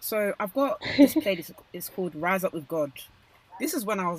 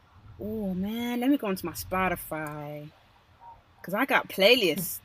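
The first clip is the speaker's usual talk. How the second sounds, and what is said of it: Put-on American accent. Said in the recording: “my American accent”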